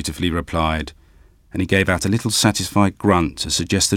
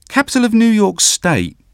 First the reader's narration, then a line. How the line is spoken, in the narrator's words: excited smile and chirped up